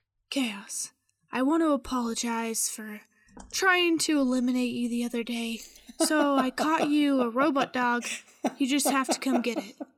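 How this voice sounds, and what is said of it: Character voice for Effie. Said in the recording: “in my Effie voice”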